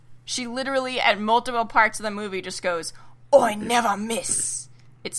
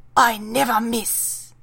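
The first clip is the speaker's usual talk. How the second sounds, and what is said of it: Badly imitated accent of a character. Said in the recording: “how bad my accent is”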